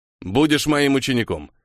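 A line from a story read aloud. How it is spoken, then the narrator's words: Unexpectedly clear voice. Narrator (Russian): неожиданно ясным голосом заявил Макани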